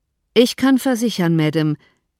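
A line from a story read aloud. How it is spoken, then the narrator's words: Cold reply. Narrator (German): entgegnete er kalt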